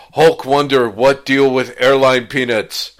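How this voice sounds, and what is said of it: Imitation of the Hulk's voice. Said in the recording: “my imitation of the Hulk”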